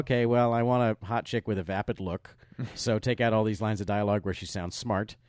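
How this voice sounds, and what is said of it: Impression of Michael Bay. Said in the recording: “my Michael Bay impression”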